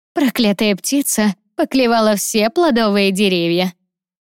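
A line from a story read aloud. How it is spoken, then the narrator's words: Grumbling. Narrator (Russian): проворчала Эльза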